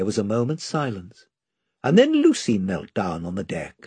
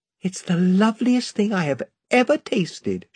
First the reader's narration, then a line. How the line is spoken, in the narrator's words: she said, with a kind of gasp